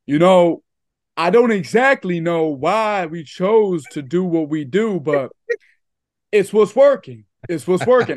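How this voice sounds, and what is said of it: Imitates another person's voice. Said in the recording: “That's actually a really good Draymond impersonation. ... That's really good.”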